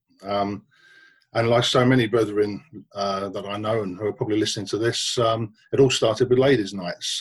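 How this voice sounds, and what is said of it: London accent. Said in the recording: “as you can probably tell from my accent, my masonry started off in London”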